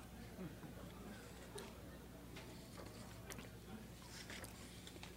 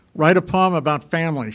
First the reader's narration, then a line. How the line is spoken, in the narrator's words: she said